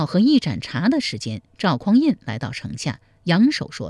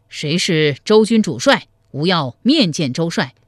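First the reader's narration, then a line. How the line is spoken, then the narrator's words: Loud fearful shout. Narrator (Chinese): 黄埔辉心中发怯，高声叫道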